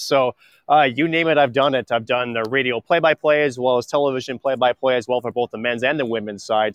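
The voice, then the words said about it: Polished radio announcer voice. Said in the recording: “how good is that radio voice of his?”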